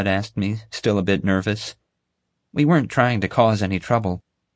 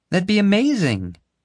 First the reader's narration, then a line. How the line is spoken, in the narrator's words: Violet exclaimed